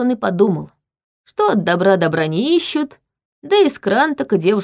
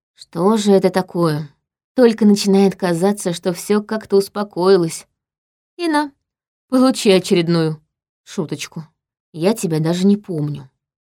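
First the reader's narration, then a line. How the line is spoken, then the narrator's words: Plain. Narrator (Russian): сказала я зачем-то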